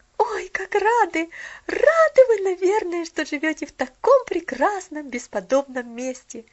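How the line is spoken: Excited girl's exclamation. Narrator (Russian): воскликнула девочка

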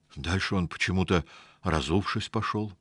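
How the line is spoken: Lowered to whisper. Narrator (Russian): понизив голос до шепота, сообщил Павлик

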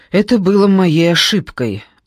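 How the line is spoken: Sighing man. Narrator (Russian): вздохнул немец

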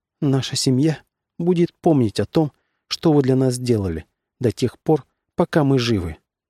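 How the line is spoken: Slightly trembling voice. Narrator (Russian): чуть дрогнувшим голосом, принцесса сказала

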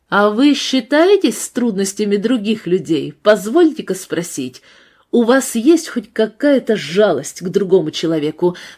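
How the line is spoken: Asked fairly loudly. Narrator (Russian): спросил довольно громко

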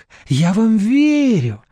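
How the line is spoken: Fervent exclamation. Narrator (Russian): с жаром воскликнула Надежда Николаевна

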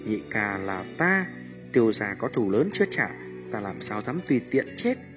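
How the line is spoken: Soft, smiling. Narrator (Vietnamese): Tiêu Viêm mỉm cười, nhẹ giọng nói

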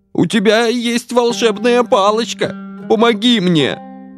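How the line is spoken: Pleading, half-dead man. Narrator (Russian): взмолился этот полутруп

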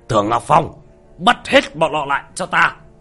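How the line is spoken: Sudden shrill shout. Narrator (Vietnamese): Cấp trên của Tưởng Ngọc Phong đột nhiên quát lên một tiếng chói tai

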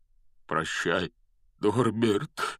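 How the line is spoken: Breaking, forced voice. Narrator (Russian): срывающимся голосом выдавил из себя Хагрид

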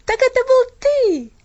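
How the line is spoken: Exclamation. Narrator (Russian): воскликнул он

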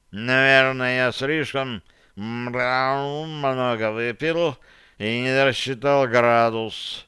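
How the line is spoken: Drunk voice, catlike tones. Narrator (Russian): промолвил он пьяным голосом, в котором все больше проскальзывали кошачьи интонации

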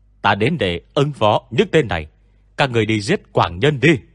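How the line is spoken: Shouting while charging. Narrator (Vietnamese): Hắn lao về phía Quy Bất Quy, đồng thời hét lên với những kẻ khác

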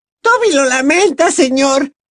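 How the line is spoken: Elf squeaking nervously. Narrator (Spanish): chilló nervioso el elfo

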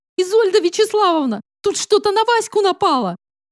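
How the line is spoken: Squeak. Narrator (Russian): пропищала Зайцева

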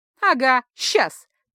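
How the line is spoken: Half laugh, half growl. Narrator (Russian): то ли засмеялась, то ли зарычала Кицуне

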